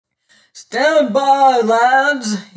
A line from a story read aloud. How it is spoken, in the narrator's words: he roared